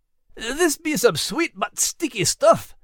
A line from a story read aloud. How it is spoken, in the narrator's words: Max muttered through clenched teeth